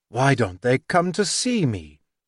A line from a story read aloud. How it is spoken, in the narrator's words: Thoreau cried to Sophia